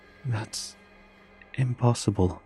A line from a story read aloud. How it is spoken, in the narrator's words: I murmured